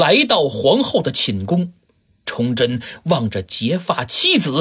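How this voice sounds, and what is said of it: Usual voice. Nothing is said of it.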